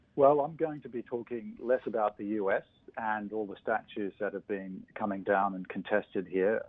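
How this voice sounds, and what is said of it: Australian accent. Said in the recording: “where I come from, Australia, as you can guess from my accent”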